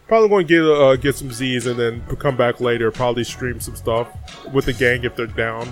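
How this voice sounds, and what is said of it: Tired, slightly slurred speech. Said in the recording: “I'm tired, you guys. Like, if I'm slurring my words a little bit, I haven't gone to sleep since last stream ... you sound kind of weird”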